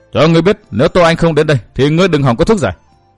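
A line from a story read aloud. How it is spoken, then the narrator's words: Shout. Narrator (Vietnamese): Tiểu Linh Ngư ... hét lên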